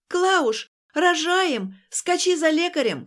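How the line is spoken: Grandmother shouting very loudly. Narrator (Russian): кричала бабушка на все поместье

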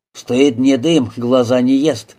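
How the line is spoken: Grumbled. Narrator (Russian): буркнул Марусов

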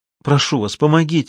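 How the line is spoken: Pleading. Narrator (Russian): взмолилась

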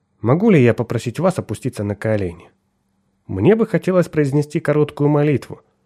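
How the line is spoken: Soft. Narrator (Russian): сказал он мягко

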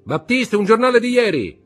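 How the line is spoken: Shouted. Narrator (Italian): gridò Beauchamp

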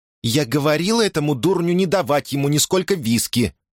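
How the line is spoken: Muffled squeal from behind. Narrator (Russian): произнесла у него из-за спины миссис Руфус, приглушенно взвизгнув

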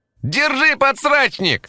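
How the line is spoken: Ringing boyish shout. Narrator (Russian): выкрикнул позади кто-то звонким мальчишеским голосом

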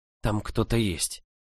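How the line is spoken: Whispered answer. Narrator (Russian): шепотом ответила

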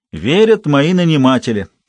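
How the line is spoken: Plain. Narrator (Russian): ответил Сирил

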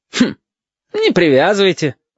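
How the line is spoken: Falsely cheerful voice. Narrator (Russian): Ненатурально бодрым голосом сказал Хариус

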